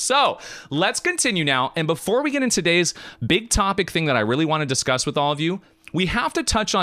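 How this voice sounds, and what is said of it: Usual voice. Nothing is said of it.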